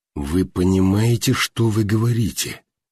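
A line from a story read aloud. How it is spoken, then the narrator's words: Quiet. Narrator (Russian): Тихо сказал он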